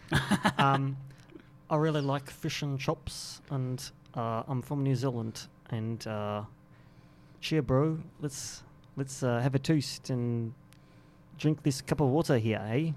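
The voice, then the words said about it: Put-on New Zealand accent. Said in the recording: “could you give us your version of the New Zealand accent? ... That's not only what they sound like, but that is what they would say.”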